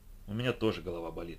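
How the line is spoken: Gloomy. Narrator (Russian): мрачно произнесла Райли

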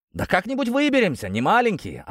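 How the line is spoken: Snapping retort. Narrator (Russian): огрызнулся один из бандитов

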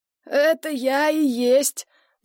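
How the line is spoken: Hoarse wheeze, landlady. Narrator (Russian): прохрипела хозяйка квартиры

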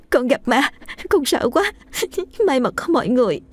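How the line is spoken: Sobbing. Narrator (Vietnamese): cả hai nức nở khóc

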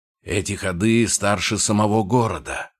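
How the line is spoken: Grumbling. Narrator (Russian): проворчал Клык, не оборачиваясь

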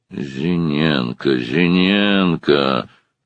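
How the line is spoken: Pensive drawl. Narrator (Russian): протянул он задумчиво

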